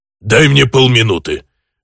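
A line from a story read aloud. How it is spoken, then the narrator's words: Sharp orcish bark. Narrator (Russian): резко гаркнул орк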